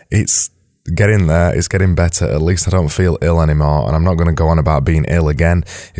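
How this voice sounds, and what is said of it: Hoarse, gravelly voice. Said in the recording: “my voice sounds even worse than it did yesterday ... my voice has got worse today ... It sounds a little bit more horsey and a little bit more, I don't know, it sounds a bit weird, sounds a bit gravelly.”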